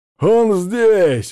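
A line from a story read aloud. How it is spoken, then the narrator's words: Shouted. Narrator (Russian): закричал Петя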